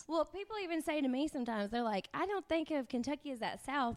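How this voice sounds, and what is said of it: Southern US accent. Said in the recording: “you have an accent”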